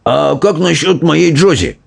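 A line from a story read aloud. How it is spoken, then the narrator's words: Exclamation, old man. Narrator (Russian): воскликнул дедушка Джо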